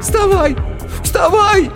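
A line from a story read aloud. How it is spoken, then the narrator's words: Distant shout. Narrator (Russian): кричал кто-то вдалеке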